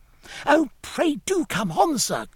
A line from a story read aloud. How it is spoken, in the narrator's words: cried the child again